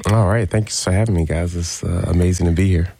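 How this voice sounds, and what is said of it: Smooth radio-announcer voice. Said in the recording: “you have a radio voice. That's a great radio voice.”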